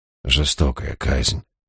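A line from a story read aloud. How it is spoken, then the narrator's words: Muttered. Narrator (Russian): пробормотал я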